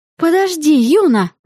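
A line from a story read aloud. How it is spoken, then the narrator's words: Exclaimed. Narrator (Russian): воскликнула я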